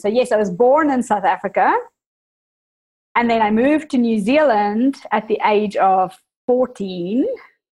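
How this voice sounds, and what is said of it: South African accent with New Zealand tinge. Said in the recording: “that is the South African in me, I guess, that, you know, even just little pronunciation... the Kiwis corrupted my accent a little bit, so I often confuse people”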